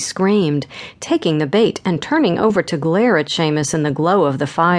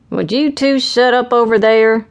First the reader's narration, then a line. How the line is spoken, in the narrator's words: An echoing voice called out from another campfire